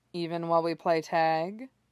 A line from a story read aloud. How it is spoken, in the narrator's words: Orochimaru asks dryly